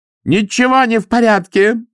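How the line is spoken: Shout. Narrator (Russian): закричала она

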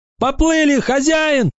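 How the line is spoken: Shout. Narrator (Russian): закричал Маккей

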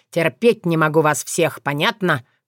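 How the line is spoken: Growl. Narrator (Russian): Прорычал

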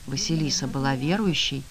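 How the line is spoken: Quiet question. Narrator (Russian): тихо спросила

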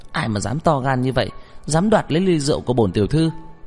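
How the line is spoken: Angry female shout. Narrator (Vietnamese): Cô tức giận quát lên

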